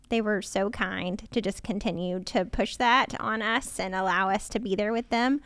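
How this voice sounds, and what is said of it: Kentucky accent. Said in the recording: “my accent is coming out even more in this microphone... Good old Kentucky”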